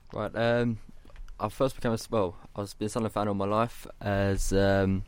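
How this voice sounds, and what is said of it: English accent, not northeast. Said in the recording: “he doesn't have a typical northeast accent”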